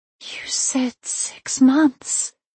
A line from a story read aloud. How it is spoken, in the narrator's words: whispered